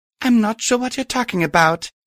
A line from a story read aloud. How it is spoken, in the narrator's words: I said timidly